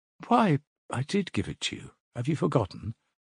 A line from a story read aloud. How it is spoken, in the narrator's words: said Dunya, turning warmly and awkwardly to him